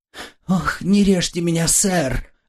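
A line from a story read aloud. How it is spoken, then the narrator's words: Terrified pleading. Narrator (Russian): взмолился я в неописанном ужасе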